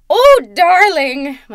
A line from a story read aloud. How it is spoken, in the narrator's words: my mother exclaims